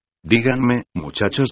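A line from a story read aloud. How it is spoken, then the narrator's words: Plain. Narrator (Spanish): dijo Molly Gruber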